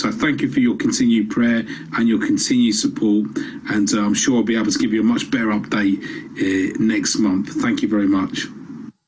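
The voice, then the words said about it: Southern English accent. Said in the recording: “as you heard from his accent, he's a Southerner”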